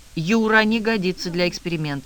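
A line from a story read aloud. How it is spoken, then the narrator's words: Grim declaration. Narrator (Russian): мрачно заявил Попов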